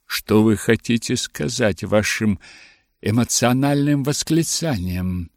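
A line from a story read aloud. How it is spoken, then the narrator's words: Plain. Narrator (Russian): спросил мистер Беннет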